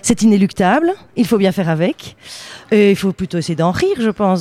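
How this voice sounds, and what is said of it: Slight Belgian French accent. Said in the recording (French): “Je sens un petit accent dans votre voix. ... Ah bah évidemment, puisque je suis belge.”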